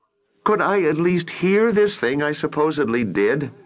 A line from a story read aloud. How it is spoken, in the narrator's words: Brett wailed